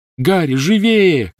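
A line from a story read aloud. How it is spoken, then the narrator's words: Shouting. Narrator (Russian): крикнула Гермиона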